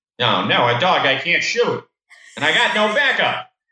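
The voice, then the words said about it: Chief Wiggum impression. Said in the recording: “I don't know why I thought chewing gum would make my Chief Wiggum impression better. It didn't.”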